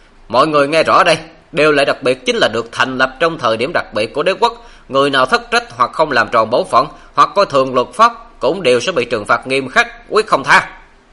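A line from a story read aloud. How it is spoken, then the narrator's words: Loud. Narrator (Vietnamese): Khoa Tư Mạc lại lớn tiếng nói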